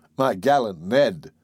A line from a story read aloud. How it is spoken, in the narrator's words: I replied, laughing